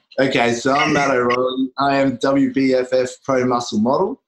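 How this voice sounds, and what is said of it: Australian accent. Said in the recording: “Obviously from the accent, you can tell from Australia.”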